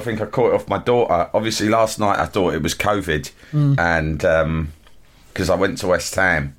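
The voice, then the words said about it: Voice sounds like a cold. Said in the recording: “You're a little under the weather, it's fair to say today ... I've got a cold.”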